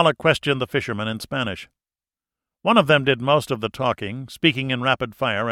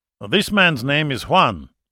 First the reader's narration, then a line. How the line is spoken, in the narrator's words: Zavala said